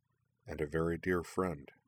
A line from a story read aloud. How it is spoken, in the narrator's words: Corwin adding in a gentle voice